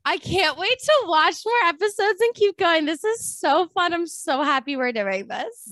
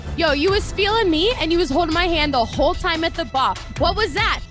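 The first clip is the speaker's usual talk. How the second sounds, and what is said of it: Exaggerated put-on Jersey accent. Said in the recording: “Jersey accent ... I think mine's pretty exaggerated, so I don't know how accurate it is”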